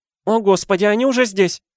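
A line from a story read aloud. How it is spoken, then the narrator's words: Desperate exclamation. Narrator (Russian): В отчаянии воскликнула тетя Петунья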